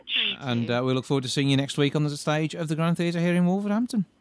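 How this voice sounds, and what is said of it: West Midlands Wolverhampton accent. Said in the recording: “listening to your accent ... the West Midlands or Wolverhampton accent”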